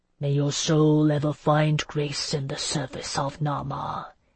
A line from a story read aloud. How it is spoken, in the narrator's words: he intoned softly